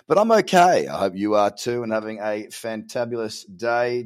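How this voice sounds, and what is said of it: Worn, strained voice. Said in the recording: “my voice has taken a beating”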